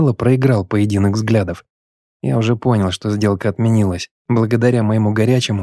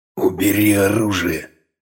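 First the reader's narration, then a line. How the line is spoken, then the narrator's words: Quiet, firm command. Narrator (Russian): Тихо, но не терпящим возражения голосом, приказал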